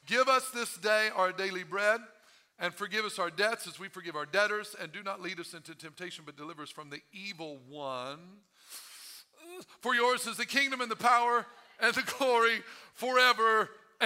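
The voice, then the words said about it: Reads very fast. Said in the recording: “If I read it fast,”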